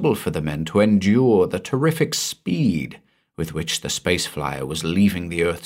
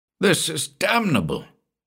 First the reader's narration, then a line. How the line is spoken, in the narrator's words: spluttered the indignant Stilton